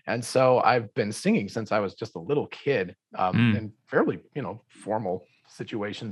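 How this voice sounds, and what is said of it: Hoarse voice. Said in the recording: “I've been talking all day and my voice is hoarse.”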